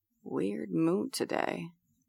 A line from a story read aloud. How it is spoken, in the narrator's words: Colin observes under his breath